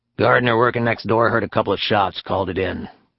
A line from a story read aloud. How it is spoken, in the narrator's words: Latour grumbled